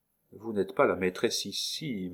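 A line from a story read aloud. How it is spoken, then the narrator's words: Murmured. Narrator (French): murmura, exprimant d'un mot le résultat de toutes ses réflexions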